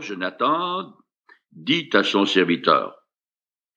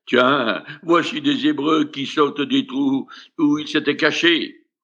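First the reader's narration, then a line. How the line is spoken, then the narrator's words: Soldiers exclaiming together. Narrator (French): ceux-ci s'écrièrent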